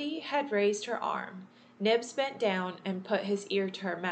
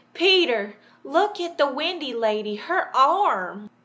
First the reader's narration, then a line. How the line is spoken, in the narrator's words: Nibs cried out